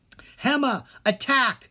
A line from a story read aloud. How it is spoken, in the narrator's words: Dharma cried